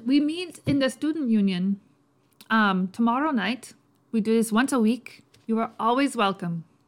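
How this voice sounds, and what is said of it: Character voice with unpolished put-on accent. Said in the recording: “I guess you're still working on the accent ... usually I can get Cockney faster or than Irish, but that was just how he came out”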